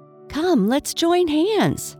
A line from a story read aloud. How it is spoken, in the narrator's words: cried Aqua